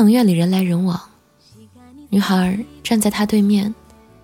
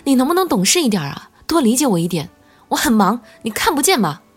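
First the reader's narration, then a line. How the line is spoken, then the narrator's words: Shouting. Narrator (Chinese): 他朝着女孩大喊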